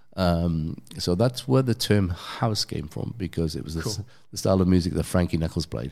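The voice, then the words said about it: English accent. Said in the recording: “It's my English accent.”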